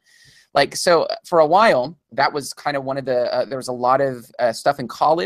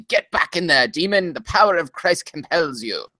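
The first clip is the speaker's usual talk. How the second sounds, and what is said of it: Put-on old man's accent. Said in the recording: “I don't know where the accent comes from. Apparently old white guys have accents.”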